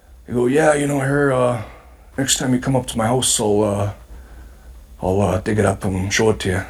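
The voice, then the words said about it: Imitates another person's voice. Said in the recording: “does an amazing Bret Hart impression. ... perfect on.”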